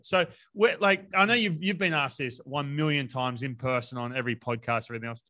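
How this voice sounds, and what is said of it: Thick Australian accent. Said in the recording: “thick Australian accent”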